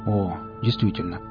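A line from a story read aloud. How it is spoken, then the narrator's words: Mumbled. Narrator (Russian): пробормотал Нарк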